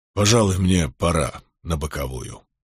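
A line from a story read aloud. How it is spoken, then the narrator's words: Grumbling. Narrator (Russian): проворчал Милфорд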